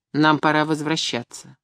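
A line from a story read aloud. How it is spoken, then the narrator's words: Cold. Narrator (Russian): холодно сказала я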